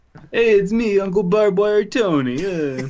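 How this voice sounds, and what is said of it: Half-hearted put-on Italian accent. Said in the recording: “you have the most endearing half-assed Italian accent”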